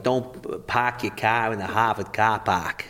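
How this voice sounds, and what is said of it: Put-on Boston accent. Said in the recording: “the Boston accent ... it's got that sort of hard”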